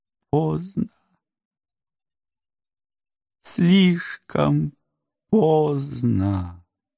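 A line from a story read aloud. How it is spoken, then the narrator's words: Moaning. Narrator (Russian): застонала она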